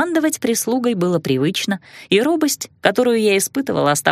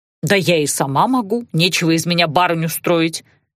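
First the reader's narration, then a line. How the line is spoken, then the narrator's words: Grumbled. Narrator (Russian): ворчала нянька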